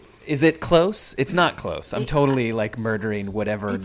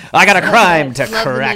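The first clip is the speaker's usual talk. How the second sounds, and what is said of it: Noir-style mid-Atlantic accent, John Mulaney-like. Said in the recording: “Mid-Atlantic ... you sound like John Mulaney trying to do a mid-Atlantic accent ... noir”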